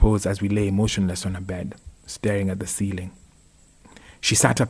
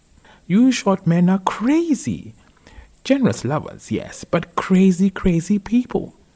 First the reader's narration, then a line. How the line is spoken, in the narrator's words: exclaimed